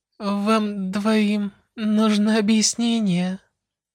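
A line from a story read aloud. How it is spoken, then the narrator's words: Tired voice. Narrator (Russian): спросила она уставшим голосом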